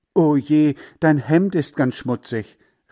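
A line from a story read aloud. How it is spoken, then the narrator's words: Calling out. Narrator (German): rief Heinz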